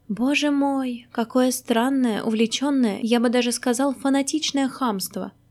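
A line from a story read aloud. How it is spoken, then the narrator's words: Sigh, near tears. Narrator (Russian): вздохнул Маськин, и ему захотелось плакать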